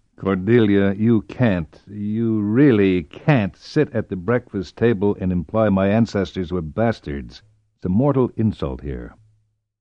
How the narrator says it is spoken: murmured

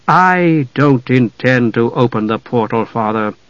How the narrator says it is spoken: Palin said, his voice low

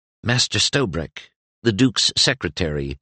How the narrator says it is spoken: murmured the page helpfully

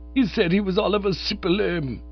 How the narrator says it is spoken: he moaned

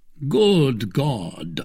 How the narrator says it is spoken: cried the hollow voice of Athos

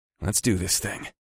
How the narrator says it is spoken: I muttered

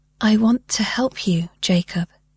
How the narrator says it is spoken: said softly, carefully

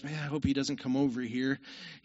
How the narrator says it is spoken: Craddock whispered to his wife

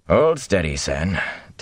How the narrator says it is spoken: Tam growled

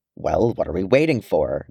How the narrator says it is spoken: growled Gimli

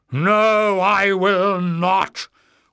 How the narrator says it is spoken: Warren shrieked in a frenzy of rage

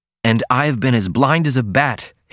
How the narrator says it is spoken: cried, a ring of vexation in his voice

